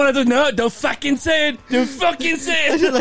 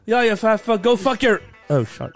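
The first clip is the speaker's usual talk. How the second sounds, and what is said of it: Put-on Irish accent. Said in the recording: “I'll say it in an Irish accent.”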